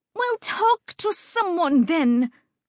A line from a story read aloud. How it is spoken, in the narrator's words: Lucida shouted